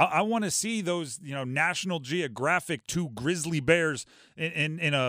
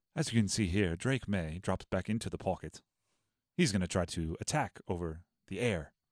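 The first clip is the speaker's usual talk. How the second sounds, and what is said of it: Whispered British nature-narrator voice. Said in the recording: “whispering guy with a British accent”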